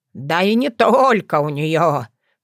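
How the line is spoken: Grumbling. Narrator (Russian): проворчал Бордодым

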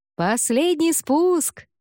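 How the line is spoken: Shouted. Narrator (Russian): крикнул Грэм сыну

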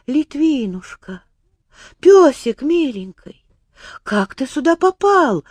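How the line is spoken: Joyful exclamation. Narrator (Russian): воскликнула она радостно

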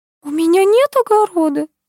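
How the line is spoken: Babbling. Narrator (Russian): залепетала Нина Анатольевна

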